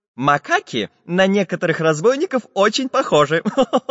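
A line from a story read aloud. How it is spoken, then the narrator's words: Laughing. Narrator (Russian): засмеялся Самоделкин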